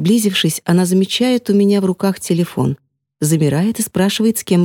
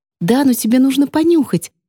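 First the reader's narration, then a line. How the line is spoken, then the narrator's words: Excited, agitated. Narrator (Russian): взволнованно говорит она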